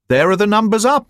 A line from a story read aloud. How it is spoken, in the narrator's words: I cried